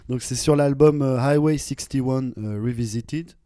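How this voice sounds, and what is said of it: Accented English pronunciation. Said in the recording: “excusez mon accent.”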